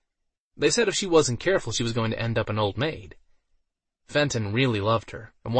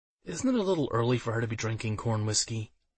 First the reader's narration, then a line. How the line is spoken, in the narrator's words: he muttered